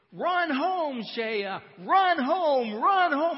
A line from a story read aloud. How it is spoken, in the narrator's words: everybody on both teams are screaming